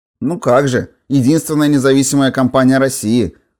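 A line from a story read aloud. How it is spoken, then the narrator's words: Skeptical grunt. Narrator (Russian): хмыкнула Лолка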